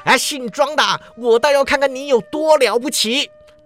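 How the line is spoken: Loud roaring shout. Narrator (Chinese): 范涛大喝一声，叫道

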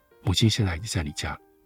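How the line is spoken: Soft question. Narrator (Chinese): 轻声地问你说

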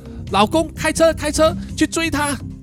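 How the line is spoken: Loud shout. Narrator (Chinese): 叶太太就大声喊说

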